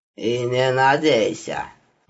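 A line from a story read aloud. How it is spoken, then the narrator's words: Gloomy statement. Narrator (Russian): мрачно сообщил знакомый голос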